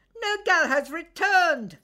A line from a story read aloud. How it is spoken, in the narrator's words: cried joyfully